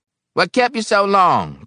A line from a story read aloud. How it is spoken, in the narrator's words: Brockway snapped